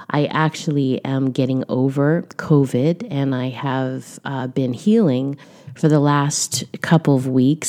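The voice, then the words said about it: Deeper, slightly raspy voice. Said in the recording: “I may sound a little bit deeper in tone or a little bit raspy.”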